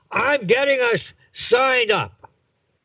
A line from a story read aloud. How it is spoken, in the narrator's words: he yelled to his wife